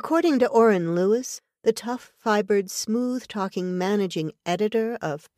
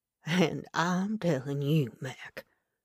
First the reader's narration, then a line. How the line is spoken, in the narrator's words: the native said in his soft brogue